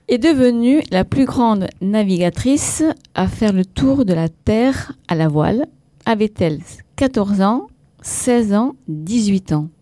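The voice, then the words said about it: Avignon Southern French accent. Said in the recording (French): “avec l'accent d'Avignon ... c'est avec l'accent Avignon”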